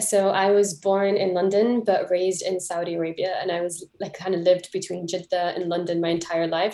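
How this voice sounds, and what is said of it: Mixed, shifting international accent. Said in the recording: “the confused accent that dips in and out of every continent”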